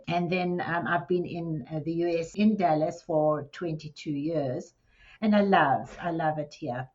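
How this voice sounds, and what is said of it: South African accent. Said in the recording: “as you can hear from this accent, I wasn't born in Texas. I was born in South Africa in Johannesburg”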